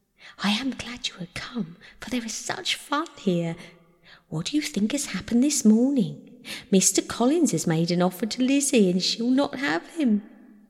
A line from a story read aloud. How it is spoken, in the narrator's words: Lydia, who, flying to her, cried in a half-whisper